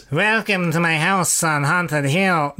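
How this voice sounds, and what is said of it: Imitates another person's voice. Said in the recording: “That's more Peter Lorre-ish ... No, that is Peter Lorre.”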